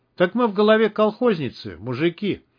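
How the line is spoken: Joyful exclamation. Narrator (Russian): радостно воскликнул Гера

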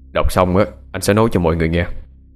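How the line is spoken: Deep, cold voice. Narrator (Vietnamese): Anh lên tiếng với chất giọng trầm lạnh của mình

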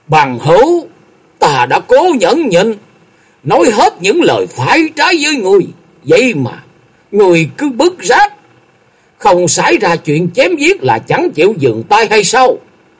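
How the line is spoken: Shouting through clenched teeth. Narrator (Vietnamese): Lòng nhẫn nại của Lâm Tường đã đến giới hạn cuối cùng, y nghiến chặt răng rồi quát

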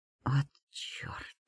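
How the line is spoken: Muttered under breath. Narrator (Russian): бормочу себе под нос

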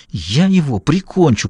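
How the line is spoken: Hissed. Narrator (Russian): прошипел Клифф

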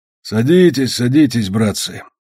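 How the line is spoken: Muffled military man's voice. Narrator (Russian): глухо сказал военный

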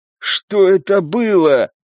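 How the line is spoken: Weak hoarse rasp. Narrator (Russian): прохрипел барон, которому было гораздо хуже, чем мне

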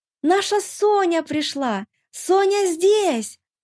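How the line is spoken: Ear-ringing scream. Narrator (Russian): Нина снова закричала, да так, что у меня в ушах зазвенело

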